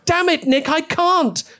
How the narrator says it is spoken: she yelled, starting to lose control of herself

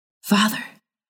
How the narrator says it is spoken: whispered

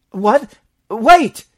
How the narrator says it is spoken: cried Ulrich

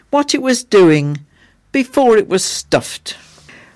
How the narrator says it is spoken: the child replied wistfully

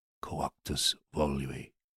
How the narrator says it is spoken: With rat's teeth bared, he muttered

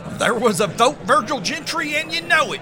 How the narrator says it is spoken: Hiram snapped

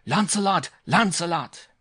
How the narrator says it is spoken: in his French accent

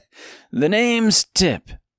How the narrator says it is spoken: said between gasps

